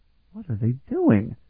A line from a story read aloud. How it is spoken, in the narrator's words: Elana exclaimed